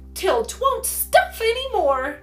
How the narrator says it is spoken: cried Polly merrily

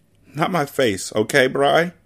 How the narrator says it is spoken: She asks, her voice breaking

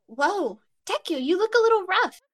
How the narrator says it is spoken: she blurts

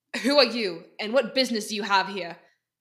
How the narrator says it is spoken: Cam gruffly called out

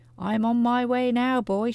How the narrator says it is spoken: she called out to George

